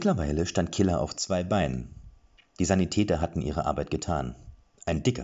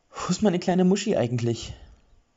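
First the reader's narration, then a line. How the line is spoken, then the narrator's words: Grief-laden question. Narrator (German): fragte sie mit trauerbelegter Stimme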